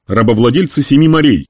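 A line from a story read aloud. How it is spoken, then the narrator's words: Loud screen broadcast. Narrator (Russian): кричал экран размером со стену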